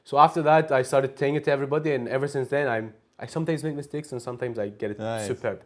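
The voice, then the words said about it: Scottish accent. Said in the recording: “Scottish accent”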